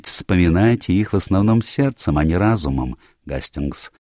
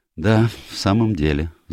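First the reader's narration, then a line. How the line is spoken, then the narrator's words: Sighing. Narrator (Russian): вздохнул я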